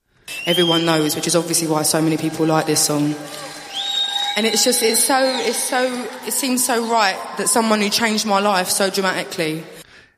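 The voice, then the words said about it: Strong Essex accent. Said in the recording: “our Essex, her accent is, yeah? ... She's like really eloquent, very articulate, but she's got that really strong Essex accent”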